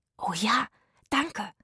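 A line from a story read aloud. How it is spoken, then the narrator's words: Whispering together. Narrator (German): flüsterten Zora, Itzig und Rufus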